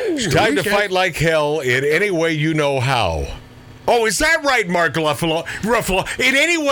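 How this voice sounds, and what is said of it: Usual voice. Nothing is said of it.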